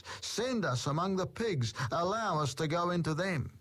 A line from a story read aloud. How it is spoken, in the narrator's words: The demons begged Jesus